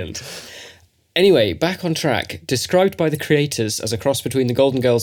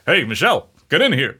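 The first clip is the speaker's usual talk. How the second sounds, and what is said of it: Impression of Barack Obama. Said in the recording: “that was meant to be both of our impressions of US President Barack Obama”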